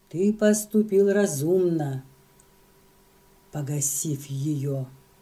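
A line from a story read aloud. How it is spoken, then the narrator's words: Calm, guarded. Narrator (Russian): Раньера, не выдавая себя, сказал спокойно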